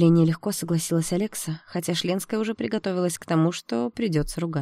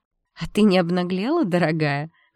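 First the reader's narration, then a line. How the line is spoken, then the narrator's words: Mocking question. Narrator (Russian): насмешливо спросила Алекса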